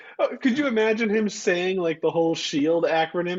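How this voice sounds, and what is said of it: Usual voice. Nothing is said of it.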